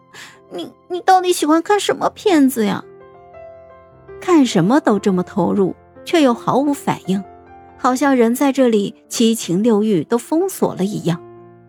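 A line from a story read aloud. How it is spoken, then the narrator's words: Quiet plaintive complaint. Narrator (Chinese): 孟婉婉哭丧着脸，小声的哀怨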